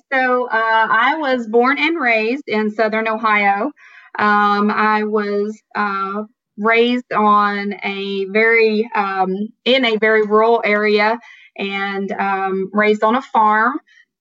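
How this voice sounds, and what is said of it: Southern-sounding American accent. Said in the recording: “my accent would lead you to believe that I'm Southern. So I get accused a lot of being from Tennessee or even Alabama and Mississippi, but I'm actually from Southern Ohio”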